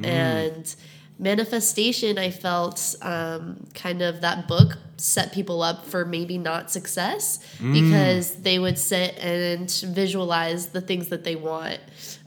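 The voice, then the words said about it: Congested, stuffed-up nasal voice. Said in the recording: “I'm a little bit sick ... I have a stuffed up nose”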